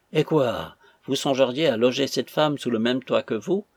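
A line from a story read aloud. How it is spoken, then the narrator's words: Major exclaiming. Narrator (French): s'écria le major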